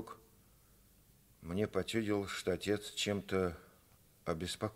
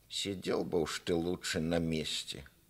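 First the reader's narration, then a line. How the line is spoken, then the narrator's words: Mother grumbling angrily. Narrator (Russian): Мать сердито проворчала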